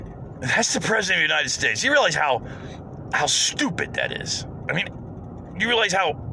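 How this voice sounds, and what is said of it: Usual voice. Nothing is said of it.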